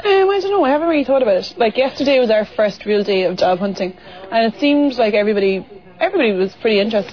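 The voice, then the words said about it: Irish accent. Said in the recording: “they were kind of intrigued by the Irish ... Lovely accent.”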